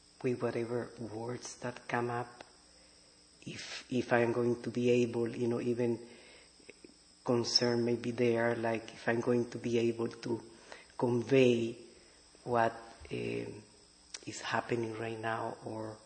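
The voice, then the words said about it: Speaker's own accent. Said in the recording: “is people going to be able to understand me, you know, my accent”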